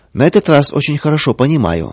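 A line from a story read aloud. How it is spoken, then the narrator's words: Calm. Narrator (Russian): спокойно отвечал Павел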